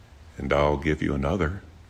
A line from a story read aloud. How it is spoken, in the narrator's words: he said gently